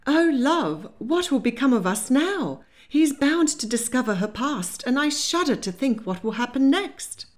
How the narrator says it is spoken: she exclaimed

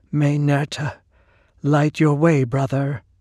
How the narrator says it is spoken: answered unsteadily

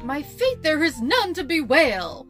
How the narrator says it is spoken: the Crankadox cried as he lay down and died

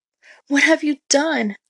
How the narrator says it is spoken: Epimetheus cried

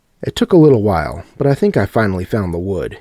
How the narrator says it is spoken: laughed

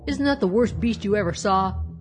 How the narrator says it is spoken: cried Uncle Robert, who was dreadfully vexed

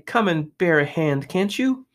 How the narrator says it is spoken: they cried

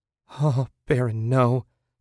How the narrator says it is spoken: Susan said shakily

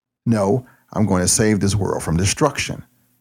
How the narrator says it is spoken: Castle said

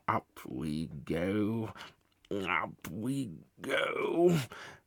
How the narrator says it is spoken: muttering to himself

